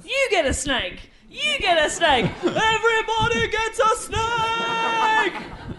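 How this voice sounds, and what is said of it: Oprah Winfrey impression. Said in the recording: “my Oprah impression ... It's pretty damn good.”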